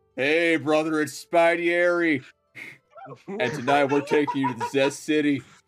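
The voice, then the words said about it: Imitates another person's voice. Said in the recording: “I can't do a Guy Guy Fieri impersonation.”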